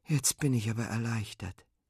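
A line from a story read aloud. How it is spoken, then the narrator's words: Relieved sigh. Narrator (German): seufzt Fine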